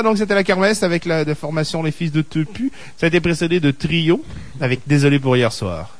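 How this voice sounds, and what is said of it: Put-on accent from France. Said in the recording (French): “tu as un bel accent. ... Je me suis fait dire par des Français que c'était bien. ... fidèle à la... ... C'est relativement fidèle à la vraie prononciation. ... plusieurs régions différentes dans un même accent français.”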